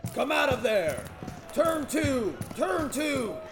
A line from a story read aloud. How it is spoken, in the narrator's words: The captain roars